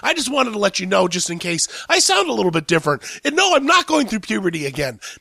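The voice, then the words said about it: Raspy, hoarse voice. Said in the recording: “my raspy Demi Moore voice, I have been struck with a cold ... a raspy Demi Moore type person because I have a little bit of a cold”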